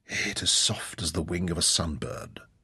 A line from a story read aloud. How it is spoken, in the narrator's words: murmured in awe